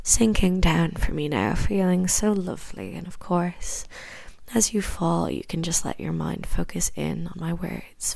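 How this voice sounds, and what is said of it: Irish accent. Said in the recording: “Irish accents ... this Irish accent”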